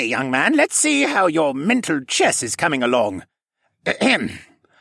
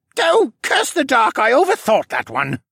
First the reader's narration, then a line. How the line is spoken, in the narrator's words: he grumbled